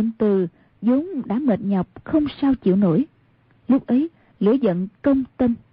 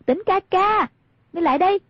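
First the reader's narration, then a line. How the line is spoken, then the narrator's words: Raised voice calling. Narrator (Vietnamese): Hoàng Dung cao giọng gọi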